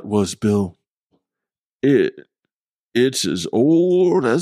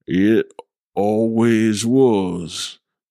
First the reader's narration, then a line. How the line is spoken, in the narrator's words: Bill slurred